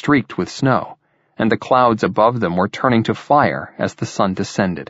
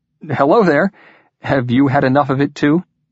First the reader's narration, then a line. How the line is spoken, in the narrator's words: his invisible companion laughed